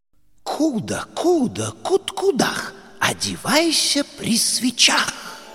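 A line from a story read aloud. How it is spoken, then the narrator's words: Strange clucking voice. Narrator (Russian): закудахтала странным голосом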